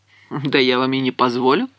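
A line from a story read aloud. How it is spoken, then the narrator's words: Laughing. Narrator (Russian): рассмеялась я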